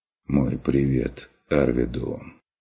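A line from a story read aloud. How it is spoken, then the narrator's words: Quiet deliberate. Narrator (Russian): выговорил фон Вегерхоф тихо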